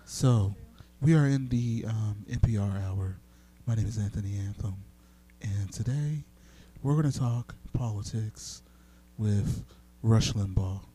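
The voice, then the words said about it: Public-radio announcer voice. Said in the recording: “as I speak in this NPR voice”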